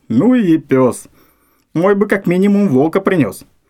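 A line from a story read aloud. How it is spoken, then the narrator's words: Snorting. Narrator (Russian): Фыркнул охотник второй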